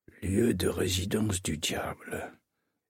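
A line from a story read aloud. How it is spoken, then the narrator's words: Repeated murmuring. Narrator (French): murmurait-il en boucle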